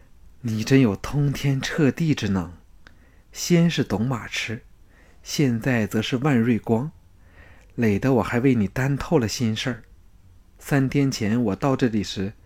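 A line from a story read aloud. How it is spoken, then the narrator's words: Sighing. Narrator (Chinese): 龙阳君叹叹口气说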